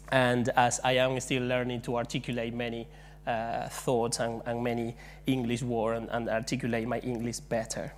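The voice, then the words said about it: Spanish-accented English. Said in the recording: “I hope you cope with me today with my English, Spanish accent”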